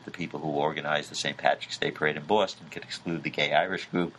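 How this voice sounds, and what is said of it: Brief put-on Boston accent. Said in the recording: “You even did a Boston accent there.”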